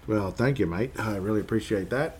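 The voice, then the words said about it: Put-on Australian accent. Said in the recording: “your Aussie accent impression was actually very good ... Reckon I keep trying to do the Aussie accent”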